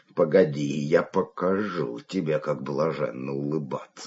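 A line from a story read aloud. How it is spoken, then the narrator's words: Muttering. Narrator (Russian): бормотал он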